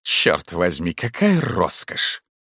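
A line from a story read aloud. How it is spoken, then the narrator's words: Muttered. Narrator (Russian): пробормотав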